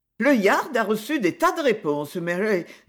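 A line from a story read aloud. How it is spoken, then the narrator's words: Cheerful. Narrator (French): dit-elle gaiement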